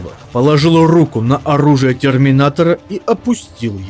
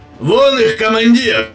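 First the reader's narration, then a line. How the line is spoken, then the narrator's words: Shouted. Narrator (Russian): крикнул второй гвардеец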